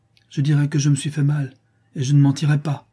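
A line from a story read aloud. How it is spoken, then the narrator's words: Exasperated child exclaiming. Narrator (French): s'écria l'enfant exaspéré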